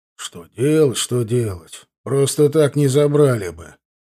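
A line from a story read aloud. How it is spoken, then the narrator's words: Displeased grumble. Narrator (Russian): проворчал недовольно генерал, а сам ликовал в душе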